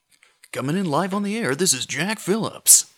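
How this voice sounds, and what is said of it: Classic AM radio DJ voice. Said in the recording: “that was a very good AM radio voice ... That was very top 40.”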